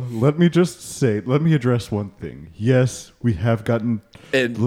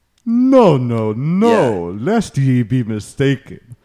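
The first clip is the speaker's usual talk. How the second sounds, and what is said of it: Unclear put-on accent. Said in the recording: “Are you trying to do some kind of accent”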